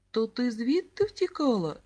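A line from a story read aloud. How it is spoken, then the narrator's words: Laughing. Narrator (Ukrainian): засміявся Сергійко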